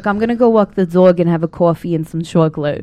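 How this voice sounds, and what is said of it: Put-on Long Island accent. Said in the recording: “Is that a Long Island accent? ... Yeah, very. ... Very hard on the S ... almost like a whistle”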